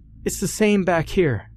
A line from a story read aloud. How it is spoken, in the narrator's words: Jackie called out